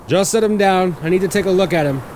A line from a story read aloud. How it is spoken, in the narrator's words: shouted an echoing voice from a paramedic